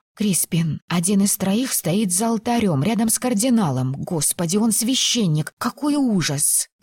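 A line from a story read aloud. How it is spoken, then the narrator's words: Whispered. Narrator (Russian): прошептала мужу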